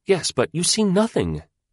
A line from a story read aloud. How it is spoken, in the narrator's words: she cried at him, in the impatient, high way she had